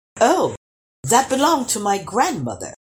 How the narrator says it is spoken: exclaimed the king

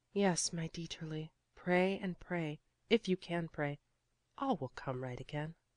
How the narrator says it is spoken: she whispered softly

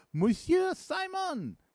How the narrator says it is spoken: cried a voice on the landing place

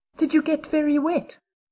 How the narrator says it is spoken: she asked anxiously

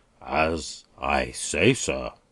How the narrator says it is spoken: pompously went on the mayor

